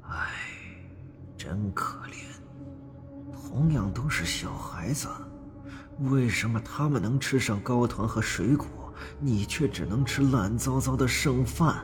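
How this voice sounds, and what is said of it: Whispering murmur. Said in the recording (Chinese): “小声议论起来”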